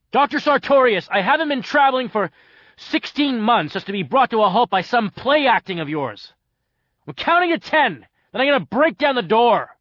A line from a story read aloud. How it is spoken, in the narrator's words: no longer holding back the anger that was building up in me, I roared